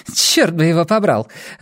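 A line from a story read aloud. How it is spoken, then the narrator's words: Relieved laughter. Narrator (Russian): облегченно засмеялась она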